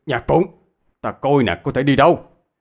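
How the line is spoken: Shout. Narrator (Vietnamese): Hạ Viên hét lên

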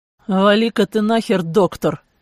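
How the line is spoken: Growl. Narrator (Russian): рыкнул я

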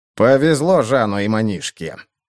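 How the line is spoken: Grumbling. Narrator (Russian): проворчал сутулый Бальд

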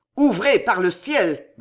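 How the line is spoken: Growled. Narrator (French): gronda François

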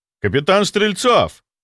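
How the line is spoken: Measured indignant exclamation. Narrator (Russian): воскликнул я, вкладывая в голос ровно столько возмущения, сколько положено обычному врачу, увидевшему арест коллеги

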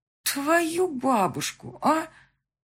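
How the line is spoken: Shocked drawl. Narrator (Russian): протянула шокированная Люба

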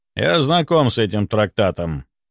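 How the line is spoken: Cold reply. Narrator (Russian): холодно ответил Стрельцов

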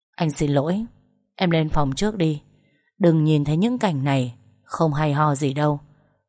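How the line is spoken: Low, hoarse voice. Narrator (Vietnamese): chú nhỏ giọng khàn đục

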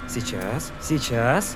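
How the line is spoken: Young man mumbling. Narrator (Russian): бормотал юный техник

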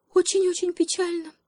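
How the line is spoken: Sighing. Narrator (Russian): вздохнула обезьянка

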